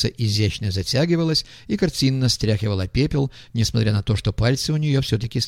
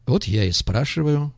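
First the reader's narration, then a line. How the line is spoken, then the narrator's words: Said calmly. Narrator (Russian): спокойно сказал артист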